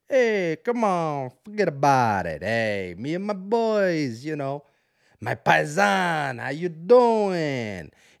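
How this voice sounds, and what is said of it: Put-on Italian accent. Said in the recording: “What's an Italian accent? I got to get Italian.”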